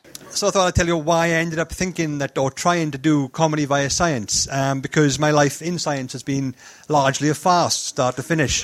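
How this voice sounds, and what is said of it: Welsh accent. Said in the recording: “I do talk like this ... I've managed to smooth the edges off my strong Welsh accent over time”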